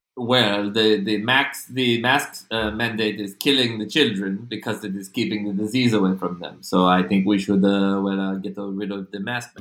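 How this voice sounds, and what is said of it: Put-on vaguely French accent. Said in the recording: “I don't even know what this accent is. It's just not mine. ... This is like French Florida.”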